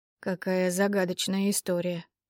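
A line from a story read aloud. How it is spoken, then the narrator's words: Muttering. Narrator (Russian): пробормотал его светлость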